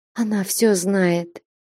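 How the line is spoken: Barely audible moan. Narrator (Russian): едва слышно простонала Настя

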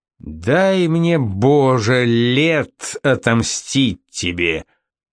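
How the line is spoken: Growling into ear. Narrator (Russian): король прорычал ему в ухо

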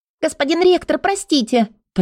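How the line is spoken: Hurried slightly squeaky blurt. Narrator (Russian): торопливо выпалила она немного писклявым голосом

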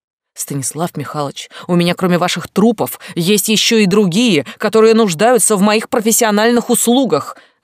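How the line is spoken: Barking woman. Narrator (Russian): рявкнула женщина

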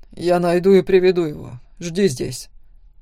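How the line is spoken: Commanding tone. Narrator (Russian): сказал он почти приказным тоном

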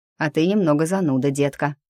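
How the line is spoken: Snort. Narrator (Russian): фыркнул он

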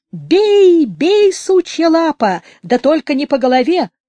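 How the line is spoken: Screaming. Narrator (Russian): кричала

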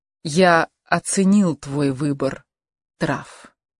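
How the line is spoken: Soft. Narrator (Russian): сказал Рауль мягко

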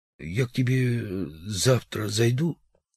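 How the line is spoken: Young man, sudden strained voice. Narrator (Russian): после долгой паузы юноша вдруг сказал сдавленным голосом

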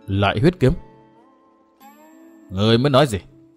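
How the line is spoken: Muttering. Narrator (Vietnamese): Ngô Minh lẩm bẩm

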